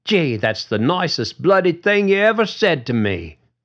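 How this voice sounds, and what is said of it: Rough attempt at British accent. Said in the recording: “in something close to a British accent”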